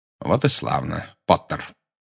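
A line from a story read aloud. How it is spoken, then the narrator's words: Coldly. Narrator (Russian): холодно сказал Снег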